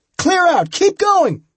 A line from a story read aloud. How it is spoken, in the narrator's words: he yelled at us